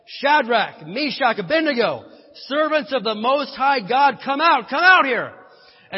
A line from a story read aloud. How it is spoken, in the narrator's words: Nebuchadnezzar came as close as he could to the door of the flaming furnace and shouted